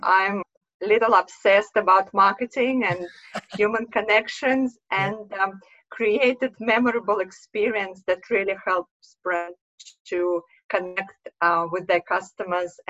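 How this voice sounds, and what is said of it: Russian accent. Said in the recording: “you can hear from my accent of Russian background”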